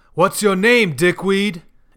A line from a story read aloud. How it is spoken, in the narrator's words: Eric's voice booms